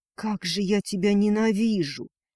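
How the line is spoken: Hoarse, tearful. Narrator (Russian): прохрипела Неналия, не сдерживая горьких слез

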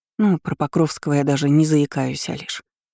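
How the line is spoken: Glum, guilty. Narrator (Russian): уныло сказала я, чувствуя себя виноватой перед Алиной

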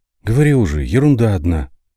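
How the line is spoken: Sighing. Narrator (Russian): вздохнула Никандора

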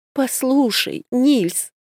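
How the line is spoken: Pleading. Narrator (Russian): взмолился, наконец, гном

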